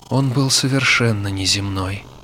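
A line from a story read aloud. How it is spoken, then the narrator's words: Sighing. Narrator (Russian): вздохнула она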